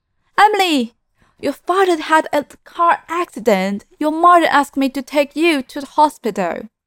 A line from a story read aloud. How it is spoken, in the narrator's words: Tang Sumei feigning panic, and shouted